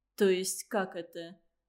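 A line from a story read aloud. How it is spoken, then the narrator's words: Question with soft laugh. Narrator (Russian): спросил Андрей и тихо рассмеялся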